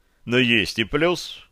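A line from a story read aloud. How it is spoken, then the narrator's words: Declaring, suppressing laughter. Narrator (Russian): заявил я, стараясь не хохотнуть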